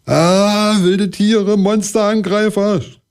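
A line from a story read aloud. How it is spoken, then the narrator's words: Frantic scream. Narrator (German): schrie Kalle und sprang hektisch auf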